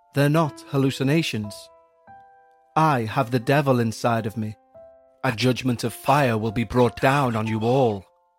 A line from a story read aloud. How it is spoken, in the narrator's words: said calmly